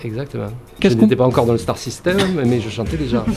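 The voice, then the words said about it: Southern French accent. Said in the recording (French): “le même accent, un petit peu ... du sud. ... mon accent, je l'ai depuis longtemps”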